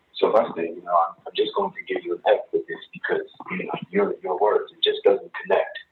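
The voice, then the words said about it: Poorly done put-on French accent. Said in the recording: “she had like a French accent ... that was a horrible French accent”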